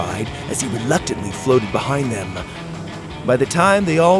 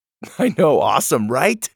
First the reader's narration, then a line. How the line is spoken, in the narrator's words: Doug laughed